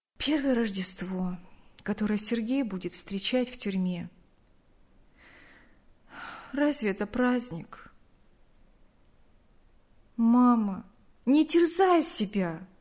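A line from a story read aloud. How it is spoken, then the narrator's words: Sad. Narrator (Russian): грустно сказала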